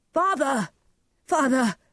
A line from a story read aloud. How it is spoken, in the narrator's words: he cried